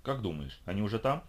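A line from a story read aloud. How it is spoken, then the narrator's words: Plain. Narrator (Russian): спросила Тина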